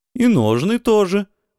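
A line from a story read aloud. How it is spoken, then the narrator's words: Joyful confirmation. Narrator (Russian): радостно подтвердил Исток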